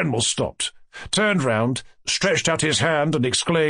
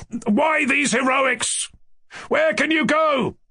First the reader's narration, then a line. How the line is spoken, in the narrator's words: Ganya shouted from the window